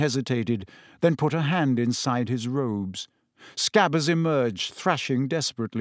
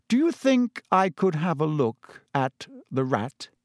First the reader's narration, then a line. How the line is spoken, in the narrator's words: said evenly